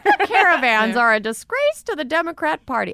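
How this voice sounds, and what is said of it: Muppet-style silly character voice. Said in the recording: “Say it like a Muppet ... I guess that's a Muppet.”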